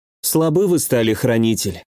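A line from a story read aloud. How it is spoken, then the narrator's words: Sighing. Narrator (Russian): вздохнула Руки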